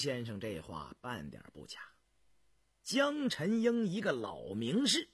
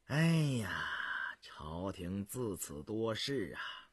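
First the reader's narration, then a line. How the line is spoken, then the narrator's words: Sighing. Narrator (Chinese): 印祥方叹道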